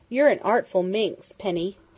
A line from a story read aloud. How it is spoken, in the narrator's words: Dundee chuckled